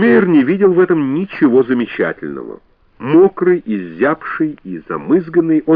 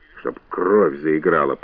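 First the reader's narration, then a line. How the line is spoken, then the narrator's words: Grumbled. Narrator (Russian): проворчал Хатчмейер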